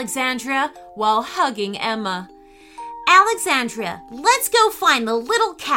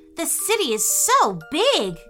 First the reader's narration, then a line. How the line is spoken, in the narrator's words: gasped Gregory